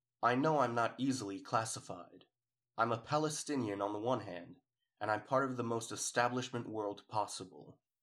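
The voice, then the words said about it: Authoritative British-New York accent. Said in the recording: “authoritative British New York accent”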